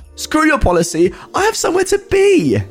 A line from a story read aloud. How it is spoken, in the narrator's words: She barks back at him